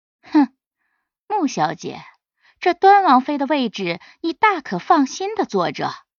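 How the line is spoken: Aloof cold sneer. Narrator (Chinese): 西念瑶清高冷笑

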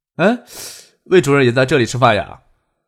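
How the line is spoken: Amused, feigned surprise. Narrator (Chinese): 翟丹青掩唇而笑了笑

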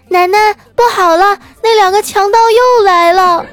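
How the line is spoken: Loud alarmed shout. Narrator (Chinese): 我闺女，一边关门，一边大声的喊

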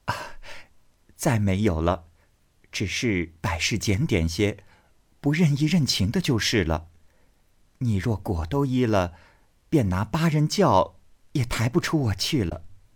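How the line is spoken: Smiling. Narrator (Chinese): 袭人笑道

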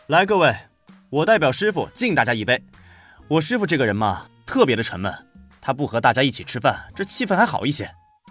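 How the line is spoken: Laughing toast. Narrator (Chinese): 周冲端起酒杯，笑道

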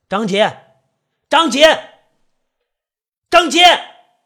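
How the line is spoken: Angry shouting. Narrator (Chinese): 韦岩生气了，对着屋里大声的喊着

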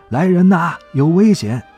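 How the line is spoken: Urgent shout in hallway. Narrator (Chinese): 咱儿子反应快，赶紧 站在楼道里喊

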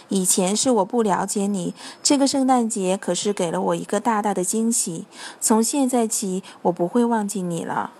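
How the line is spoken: Gentle, tender old man. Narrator (Chinese): 圣诞老人 温柔地对他说

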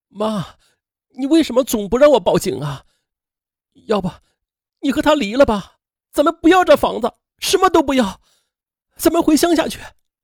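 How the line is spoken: Crying. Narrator (Chinese): 刘伟健哭着说

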